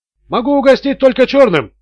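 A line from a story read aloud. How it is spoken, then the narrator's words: Shout. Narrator (Russian): крикнул Ричард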